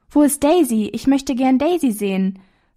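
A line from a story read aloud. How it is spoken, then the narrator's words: Cheerful preacher's call. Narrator (German): rief eine fröhliche Stimme des Predigers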